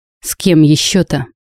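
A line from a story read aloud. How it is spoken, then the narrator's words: Angry reply. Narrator (Russian): зло ответила Саша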